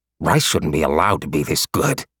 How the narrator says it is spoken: he muttered

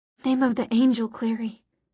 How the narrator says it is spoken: breathed

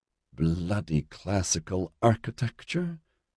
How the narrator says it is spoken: she muttered under her breath

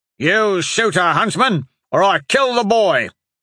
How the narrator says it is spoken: Hatch hollered over the prevailing wind

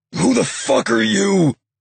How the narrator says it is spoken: Hutch growled

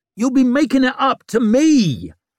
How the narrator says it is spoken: she screeched, making herself sound weaker than ever

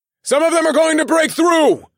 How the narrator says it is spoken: called out

